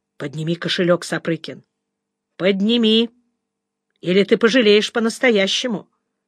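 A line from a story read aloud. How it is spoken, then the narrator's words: Through gritted teeth. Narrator (Russian): сквозь зубы сказал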